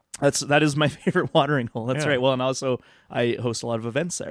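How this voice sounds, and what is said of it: Slightly raspy, strained voice. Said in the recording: “I may have lost my voice from singing too much ... It's a little bit raspy”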